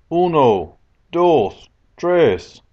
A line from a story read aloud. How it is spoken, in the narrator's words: I shouted